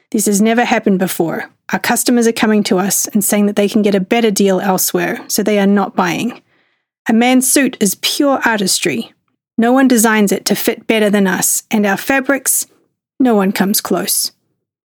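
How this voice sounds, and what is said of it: Very thick Italian accent. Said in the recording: “in a very thick Italian accent”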